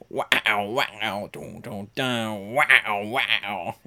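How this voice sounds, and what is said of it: Vocal imitation of wah-wah guitar music. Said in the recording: “I will do my best impression of like 70s porno music ... That wah wah. You know that wah wah guitar?”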